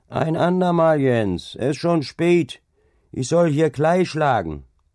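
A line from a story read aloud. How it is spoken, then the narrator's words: Calling out. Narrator (German): rief ihm entgegen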